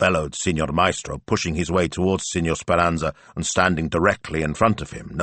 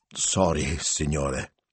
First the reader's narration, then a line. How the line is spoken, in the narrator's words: mumbled